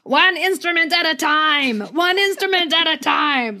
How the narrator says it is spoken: Shirovsky starts yelling

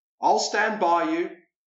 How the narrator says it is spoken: Captain Pennell roars to the lone figure on the conning tower

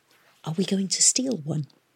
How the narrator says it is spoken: Tom whispered

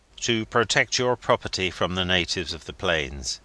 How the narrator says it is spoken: he said

